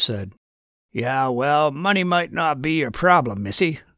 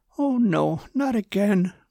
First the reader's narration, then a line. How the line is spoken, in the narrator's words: moaned Susan